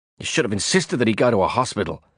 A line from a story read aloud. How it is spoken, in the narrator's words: I snapped at Johnny Cigar